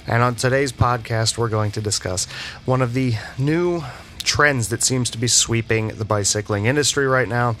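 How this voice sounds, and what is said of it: Voice sounding a little odd. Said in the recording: “my voice is a little bit odd at the moment... sick for the last couple of weeks with a head cold, sinus infection, and chest cold... coughing fits”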